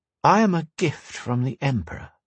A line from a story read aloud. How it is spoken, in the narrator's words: she purred